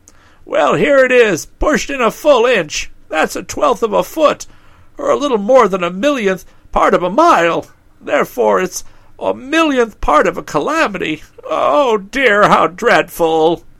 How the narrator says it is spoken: said Pessim in a wailing voice

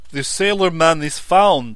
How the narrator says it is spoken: he shouted

